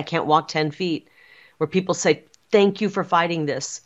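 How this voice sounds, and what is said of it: Emotional, choked-up voice. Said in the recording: “I'm getting emotional right now”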